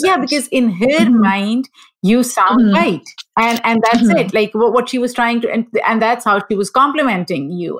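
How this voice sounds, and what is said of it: Non-native English accent. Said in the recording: “my accent just gives away. It's like, okay, she wasn't born or raised here.”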